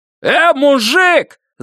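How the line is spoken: Yelling nearby. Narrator (Russian): заорали невдалеке

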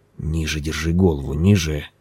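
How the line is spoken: Muttering. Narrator (Russian): пробормотал он

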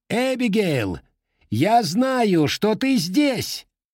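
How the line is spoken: Shouting. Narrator (Russian): крикнул Брюс

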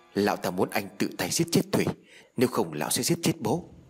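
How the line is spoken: Stammering explanation. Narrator (Vietnamese): Báo lắp bắp phân giải

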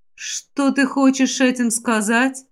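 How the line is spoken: Gloomy question. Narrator (Russian): мрачно спросила покровительница растений

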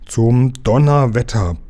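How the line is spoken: Laughing bluster. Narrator (German): polterte Lukas lachend

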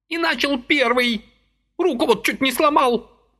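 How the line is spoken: Woman yelling. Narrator (Russian): орала тетка

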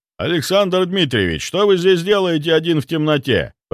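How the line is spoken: Shout. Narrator (Russian): прокричал Марк

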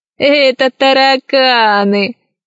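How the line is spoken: Laughing. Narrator (Russian): засмеялся другой пират

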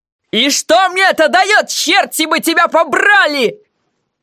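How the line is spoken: Furious yell. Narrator (Russian): В ярости заорал он

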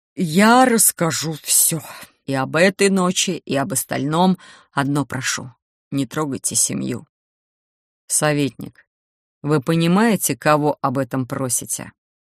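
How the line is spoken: Icy, irritated low growl. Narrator (Russian): Ледяным тоном уточнил Кир, не удержавшийся от раздраженного глухого рычания

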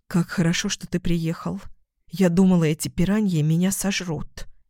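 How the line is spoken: Whispered. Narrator (Russian): шепнула

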